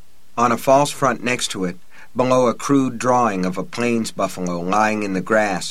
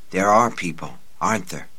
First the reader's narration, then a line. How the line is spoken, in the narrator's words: She whispered